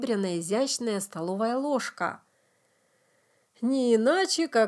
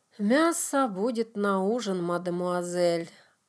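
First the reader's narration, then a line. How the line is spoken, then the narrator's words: Sighing. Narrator (Russian): атаман вздохнул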